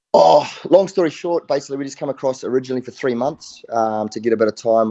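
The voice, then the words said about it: New Zealand accent. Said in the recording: “that New Zealand accent”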